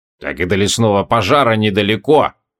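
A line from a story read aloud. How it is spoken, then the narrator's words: Grumbling. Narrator (Russian): проворчал Скайлер Тысяча Лиц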